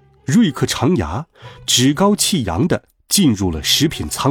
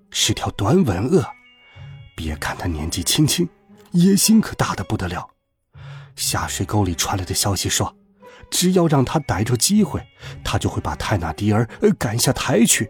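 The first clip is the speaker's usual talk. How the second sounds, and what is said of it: Quiet, whispered speech. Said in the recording (Chinese): “小声说道”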